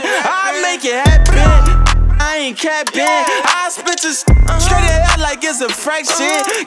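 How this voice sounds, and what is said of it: New Orleans accent. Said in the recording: “I'm from New Orleans. You can tell by the accent.”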